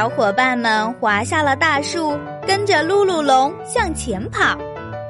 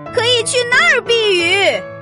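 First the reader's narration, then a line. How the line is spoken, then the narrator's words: Shouting against wind. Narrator (Chinese): 他迎着大风喊道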